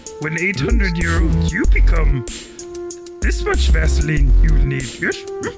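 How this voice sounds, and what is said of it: Yoda-style character voice impression. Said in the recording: “do your best Yoda impression.”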